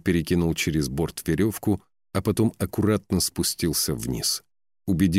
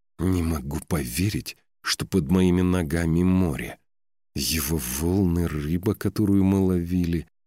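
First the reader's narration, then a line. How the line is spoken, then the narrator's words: Through gritted teeth. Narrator (Russian): процедила сквозь зубы Ракель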